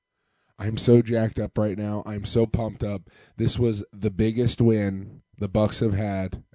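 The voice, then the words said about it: Congested, strained voice. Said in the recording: “my nose is stuffed up. My voice is gone.”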